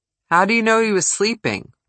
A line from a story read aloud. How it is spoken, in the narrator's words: Walters asked